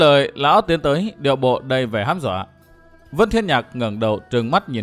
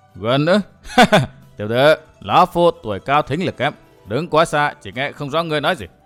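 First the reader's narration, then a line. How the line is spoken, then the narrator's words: Loud laughing voice. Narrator (Vietnamese): Hồ lão quái bỗng cười lớn nói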